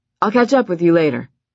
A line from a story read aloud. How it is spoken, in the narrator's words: he said